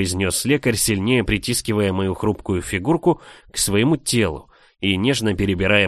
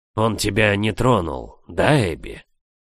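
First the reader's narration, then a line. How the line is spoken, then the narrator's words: Hoarse rasp. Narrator (Russian): Прохрипела от накатившего жара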